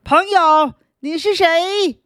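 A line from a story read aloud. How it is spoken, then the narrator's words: Loud raucous cawing. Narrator (Chinese): 乌鸦阿力用它聒噪的嗓子大声叫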